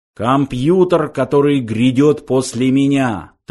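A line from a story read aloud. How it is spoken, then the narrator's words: Solemn shrill announcement. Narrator (Russian): торжественно объявил пронзительный интеллектомат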